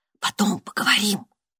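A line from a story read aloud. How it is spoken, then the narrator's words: Soundless whisper. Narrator (Russian): она беззвучно прошептала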